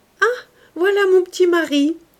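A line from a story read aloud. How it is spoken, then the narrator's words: Exclaimed. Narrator (French): s'écria Louise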